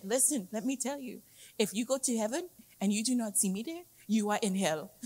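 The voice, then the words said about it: Imitated African accent. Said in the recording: “The guy said in his African accent”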